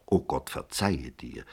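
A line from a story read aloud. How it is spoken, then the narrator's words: Plain. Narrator (German): sagte Maria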